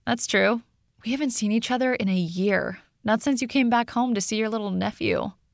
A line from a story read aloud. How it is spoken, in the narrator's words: I sighed